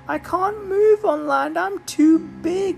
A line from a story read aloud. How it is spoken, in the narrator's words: moaned the whale